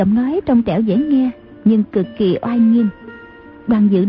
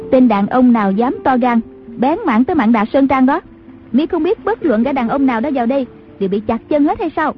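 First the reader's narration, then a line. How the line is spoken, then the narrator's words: Woman's shout, echoing from afar. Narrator (Vietnamese): từ trong khoái thuyền có tiếng đàn bà quát vọng ra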